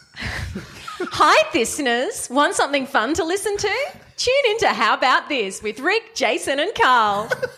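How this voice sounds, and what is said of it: TV advertising promo voice. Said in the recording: “You can say it in a funny voice if you want. Maybe you could do your TV voice... My TV voice. My advertising voice... advertising voice”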